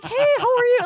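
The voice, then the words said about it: Higher-pitched polite customer service voice. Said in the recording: “I get my customer service voice on. I'm like an octave higher.”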